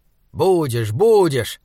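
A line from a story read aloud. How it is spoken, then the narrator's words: Irritated. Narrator (Russian): раздраженно сказал Саймон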